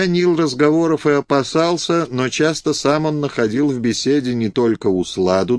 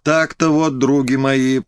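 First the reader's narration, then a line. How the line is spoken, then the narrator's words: Good-natured laugh. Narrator (Russian): продолжал он и вдруг добродушно рассмеялся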